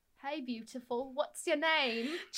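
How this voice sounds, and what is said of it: Put-on Cockney accent, badly done. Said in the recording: “that accent ... I have, like, the Cockney accent ... it was terrible”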